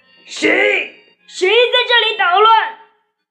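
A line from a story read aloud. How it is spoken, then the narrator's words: Fierce loud roar. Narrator (Chinese): 恶狠狠地，大声地吼道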